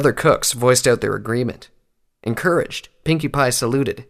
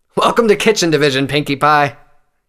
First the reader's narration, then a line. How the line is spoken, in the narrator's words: he called out with a smile